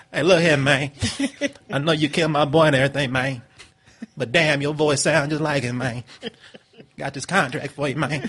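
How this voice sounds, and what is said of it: Terrence Howard impression. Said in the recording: “Terrence Howard was like ... Do the voice.”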